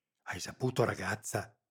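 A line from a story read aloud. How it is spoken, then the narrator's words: Frightened whisper. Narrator (Italian): sussurrò Rita, sulle guance un pallore spaurito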